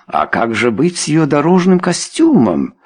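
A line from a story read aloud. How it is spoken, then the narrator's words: Exclamation. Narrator (Russian): воскликнула леди Белвиль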